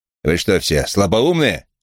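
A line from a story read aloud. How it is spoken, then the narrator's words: Loud barked shout. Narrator (Russian): гаркнул он с порога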